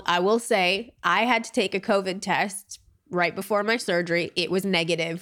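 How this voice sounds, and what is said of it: Congested, stuffy sick-sounding voice. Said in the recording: “My voice is definitely more annoying than Ty's hot, sexy, low voice was last week... Definitely a cold.”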